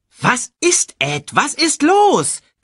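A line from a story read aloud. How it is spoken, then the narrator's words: Shrieking. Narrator (German): kreischte Shensi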